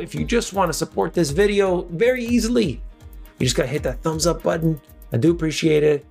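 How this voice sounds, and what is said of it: Tired, strained voice giving out. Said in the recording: “I'm tired. I'm losing my voice apparently.”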